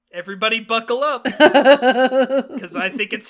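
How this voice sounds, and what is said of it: Usual voice. Nothing is said of it.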